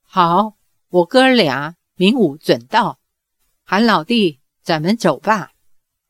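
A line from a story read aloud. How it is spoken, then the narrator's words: Old voice. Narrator (Chinese): 另一个声音苍老的人说道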